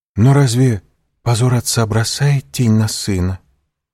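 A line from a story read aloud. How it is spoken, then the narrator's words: Timid remark. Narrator (Russian): робко заметила Валентина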